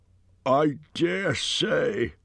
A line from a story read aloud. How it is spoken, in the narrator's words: grumbled Bomber